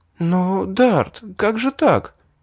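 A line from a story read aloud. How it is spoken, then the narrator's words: Flustered stammer. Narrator (Russian): Растерянно пролепетала Ребекка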